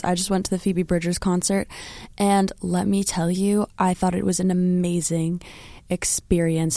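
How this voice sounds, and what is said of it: Strained, rough voice. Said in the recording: “my voice is still a little bit messed up from the concert”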